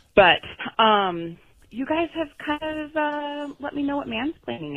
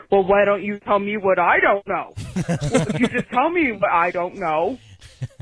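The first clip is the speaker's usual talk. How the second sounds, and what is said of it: Imitates another person's voice. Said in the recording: “probably the worst impression of Will Sasso doing ... Ventura Trump. That you have ever heard.”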